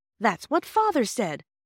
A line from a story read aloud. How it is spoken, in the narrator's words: Bobby explained eagerly